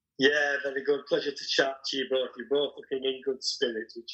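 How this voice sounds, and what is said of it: Yorkshire English accent. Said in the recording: “I cannot wait to hear the Yorkshireman voice ... fell in love with his accent ... a journalist from Yorkshire”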